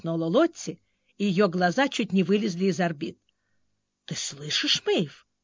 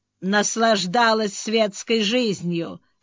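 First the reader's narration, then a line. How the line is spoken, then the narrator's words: Snorted. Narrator (Russian): фыркнула Мэйв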